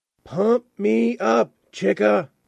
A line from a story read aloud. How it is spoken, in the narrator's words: Alna shouted slash whispered